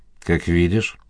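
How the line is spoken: Grumbling. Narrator (Russian): буркнул Гоголев

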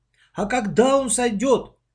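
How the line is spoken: Near-tearful exclamation. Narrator (Russian): Чуть ли не со слезами воскликнул Лёшка

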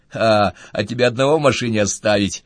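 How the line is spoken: Snorting. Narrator (Russian): хмыкнул Виктор

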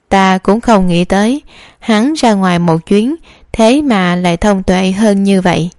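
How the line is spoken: Loud laugh, then speaking. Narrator (Vietnamese): Phương Đại Nho cười to, sau đó nói

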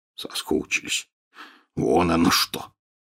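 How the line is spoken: Snorting. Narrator (Russian): хмыкнул Хагрид

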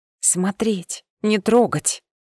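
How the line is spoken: Hoarse rasp. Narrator (Russian): Прохрипела

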